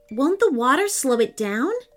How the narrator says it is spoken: asked Austin

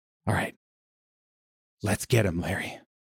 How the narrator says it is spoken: whisper under his breath

